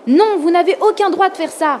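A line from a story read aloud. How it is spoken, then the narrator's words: Shouted. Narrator (French): cria Ethan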